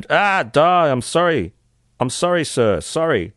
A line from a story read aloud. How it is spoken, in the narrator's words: The court heard Jacobs screamed